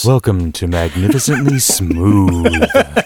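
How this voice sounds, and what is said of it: Calm smooth public-radio announcer voice. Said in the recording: “use my NPR voice ... do the show like NPR ... calm”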